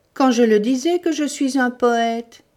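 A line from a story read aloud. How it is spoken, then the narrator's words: Ecstatic exclamation. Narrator (French): s'écria Syme extasié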